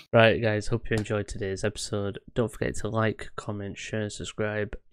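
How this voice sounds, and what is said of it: Flat, depressed-sounding delivery. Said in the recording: “You sound so depressed.”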